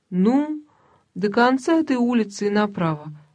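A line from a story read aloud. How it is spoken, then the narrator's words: Uncertain young woman. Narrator (Russian): сказала девушка неуверенно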